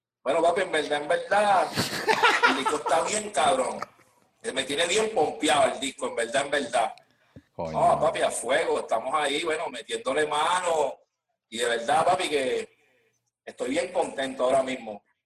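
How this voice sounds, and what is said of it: Put-on Puerto Rican accent. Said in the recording (Spanish): “tiene unos acentos arrechos... una entrevista así como si fueras Borico”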